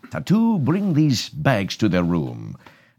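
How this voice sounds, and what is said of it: Ricardo Montalban impression. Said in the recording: “doing a Ricardo Montalban impression ... Fantasy Island”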